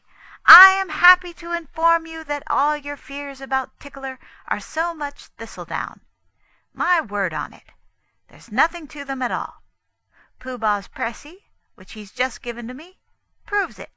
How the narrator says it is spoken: he said loudly

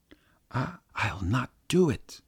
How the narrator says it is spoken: whispered Mary, trembling

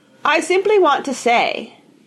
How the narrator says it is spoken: Grandma told him in her clear, ringing tones

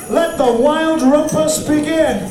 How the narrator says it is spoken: cried Max

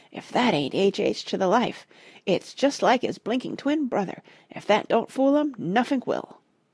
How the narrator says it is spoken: he said in a hushed whisper

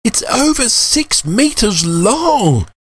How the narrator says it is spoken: Jules terrified and cried

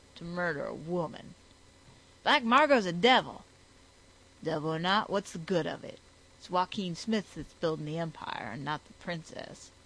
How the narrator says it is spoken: he growled

